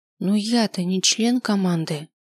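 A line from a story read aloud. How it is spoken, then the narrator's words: Quiet reply. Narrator (Russian): тихо ответил я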